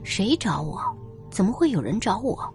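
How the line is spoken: Muttering while walking. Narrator (Chinese): 倪老师 边走边嘀咕着

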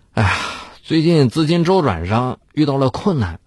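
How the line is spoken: Sighing under pressure. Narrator (Chinese): 在卢俊义的追问下，他叹着气说道

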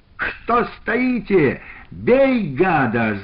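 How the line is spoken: Yell. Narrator (Russian): заорал тот

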